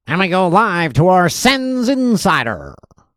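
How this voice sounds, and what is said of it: Attempted broadcaster voice. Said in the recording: “I was trying to do a broadcast voice, but that did not sound...”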